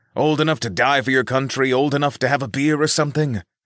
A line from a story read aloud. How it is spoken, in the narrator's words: Reggie grumbled